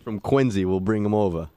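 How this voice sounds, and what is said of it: Slight New York accent. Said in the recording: “That was a New York accent, actually, a little bit right there.”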